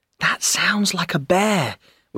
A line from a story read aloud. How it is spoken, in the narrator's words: whispered Joe